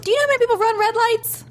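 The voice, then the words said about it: High-pitched head voice. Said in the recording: “high voice ... take it out of the head voice.”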